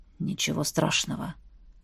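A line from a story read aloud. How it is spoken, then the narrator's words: Hoarse mutter to oneself. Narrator (Russian): хрипло пробормотал Сейл Рим, словно обращаясь к самому себе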